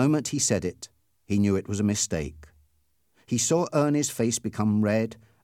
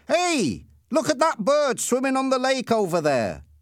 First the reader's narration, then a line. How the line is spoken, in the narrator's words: shouted